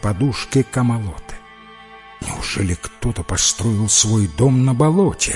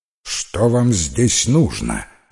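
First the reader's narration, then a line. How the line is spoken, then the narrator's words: Stern question. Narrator (Russian): строго спросила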